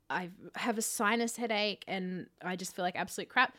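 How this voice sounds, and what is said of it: Sick, congested voice. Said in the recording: “I am so sick. I don't know if if you can tell by my voice”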